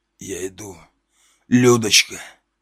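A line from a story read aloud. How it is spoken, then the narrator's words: Hoarse wheezing. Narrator (Russian): хрипел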